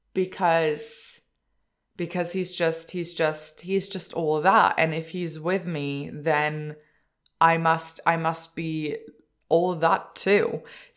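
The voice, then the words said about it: Emotional, choked voice. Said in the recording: “I'm making myself emotional. ... I'm getting all emotional”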